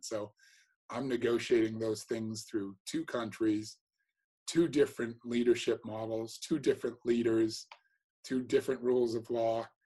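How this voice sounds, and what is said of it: American accent. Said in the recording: “you can hear my American accent.”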